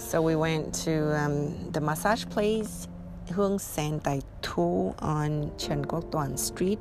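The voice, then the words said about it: Speaks with a foreign accent. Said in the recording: “my accent got worse and worse”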